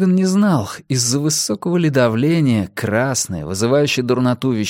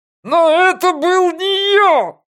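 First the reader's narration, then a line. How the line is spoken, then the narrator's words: Shouting. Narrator (Russian): заорал Франк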